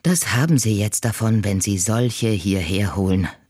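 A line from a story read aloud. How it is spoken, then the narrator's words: Sighing. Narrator (German): seufzt Frau Wahl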